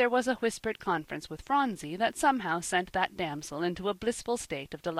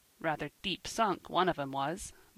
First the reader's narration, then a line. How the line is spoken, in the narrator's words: muttered Ben